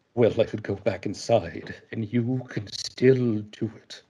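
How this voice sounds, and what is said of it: Christopher Lee impression. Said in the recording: “Christopher Lee, which I think might be my one actually passable and impersonation ... if Harley Quinn was Christopher Lee, it might sound a little something like this”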